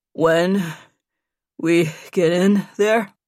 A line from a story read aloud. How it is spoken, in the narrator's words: Nate said between breaths